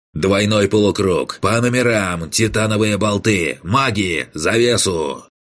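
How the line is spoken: Barked into ear. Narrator (Russian): Рявкнул в ухо идущий позади меня Кан

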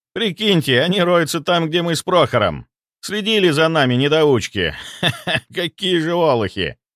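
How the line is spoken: Laughing. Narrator (Russian): рассмеялся он

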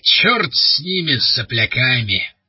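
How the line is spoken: Growling. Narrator (Russian): прорычал он

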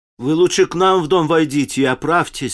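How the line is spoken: Plain. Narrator (Russian): сказала горничная

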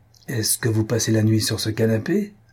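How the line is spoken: Angry question. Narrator (French): demanda-t-il à son tour avec un accent de colère

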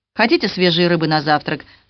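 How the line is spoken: Plain. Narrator (Russian): спросила Сюзан

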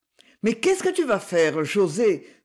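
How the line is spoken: Exclaiming. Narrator (French): s'écria Livia

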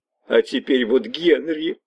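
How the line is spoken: Sobbing. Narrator (Russian): прорыдала она

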